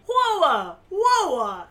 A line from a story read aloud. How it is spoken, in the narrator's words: at the top of her lungs